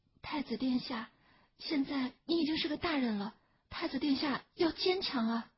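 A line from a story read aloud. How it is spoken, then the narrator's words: Soft coaxing. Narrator (Chinese): 成儿小声哄他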